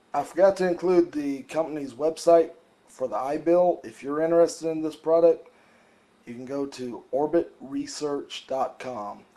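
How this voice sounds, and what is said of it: Congested voice from a cold. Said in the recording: “Pardon my voice ... I've got a cold.”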